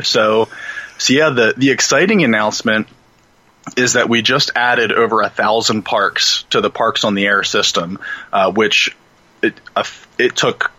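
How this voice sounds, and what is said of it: Deep radio announcer voice. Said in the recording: “put on my deep radio announcer voice”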